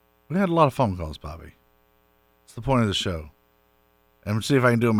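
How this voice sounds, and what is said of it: Usual voice. Nothing is said of it.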